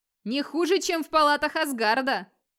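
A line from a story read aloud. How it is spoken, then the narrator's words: Tipsy, pleased shouting. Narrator (Russian): кричал слегка пьяный и очень довольный Гунвальд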